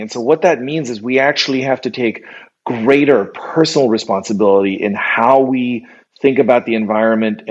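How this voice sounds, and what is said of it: American-sounding English accent. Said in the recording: “I sound very American, but I'm German”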